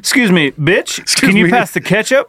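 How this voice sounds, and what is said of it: Mock pimp voice. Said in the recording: “you now sound like a pimp all the time”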